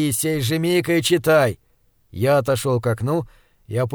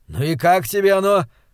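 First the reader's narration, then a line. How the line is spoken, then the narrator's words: Jubilant exclamation. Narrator (Russian): ликующе воскликнул он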